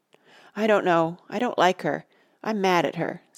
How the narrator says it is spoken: said Betsy

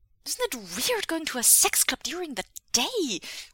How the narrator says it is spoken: Wei Wuxian blurts

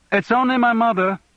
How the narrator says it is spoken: Louise shouted

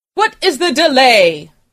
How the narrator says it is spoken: called out

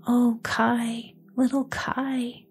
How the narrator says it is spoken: sighed Gerda

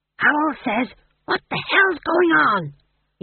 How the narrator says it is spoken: He hissed

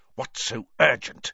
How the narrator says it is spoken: Snape hiss

